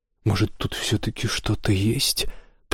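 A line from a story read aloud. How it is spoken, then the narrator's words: Muttered. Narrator (Russian): пробормотал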